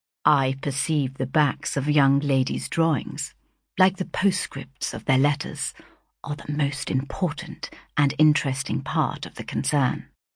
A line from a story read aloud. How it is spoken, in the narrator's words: he quietly remarked